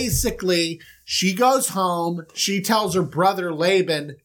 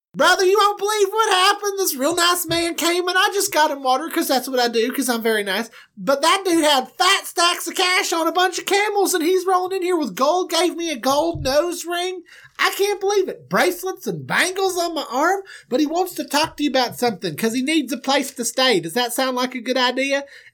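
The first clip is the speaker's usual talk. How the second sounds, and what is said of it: Imitated female character voice. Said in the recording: “I'm not doing her voice right. Let me do that.”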